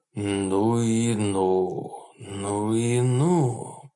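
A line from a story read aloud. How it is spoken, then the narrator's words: Muttered. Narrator (Russian): пробормотал он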